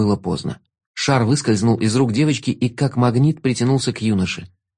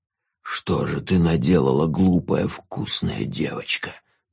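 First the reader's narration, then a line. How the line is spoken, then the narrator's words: Ghoul's hiss. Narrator (Russian): зашипел упырь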